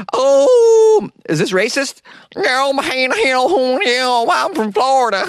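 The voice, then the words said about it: Exaggerated Florida man accent. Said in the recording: “my dumb Florida man accent”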